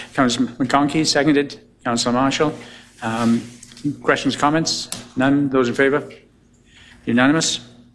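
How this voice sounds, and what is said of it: Hoarse, failing voice. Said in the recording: “The mayor notes that he's losing his voice”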